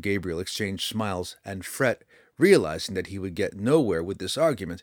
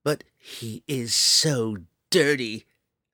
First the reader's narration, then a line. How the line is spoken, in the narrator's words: the dwarf grumbled